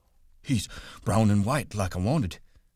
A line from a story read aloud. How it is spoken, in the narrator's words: Lenny said breathlessly